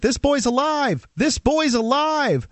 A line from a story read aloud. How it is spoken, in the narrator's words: screaming